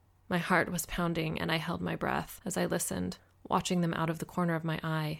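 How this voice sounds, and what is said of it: Usual voice. Nothing is said of it.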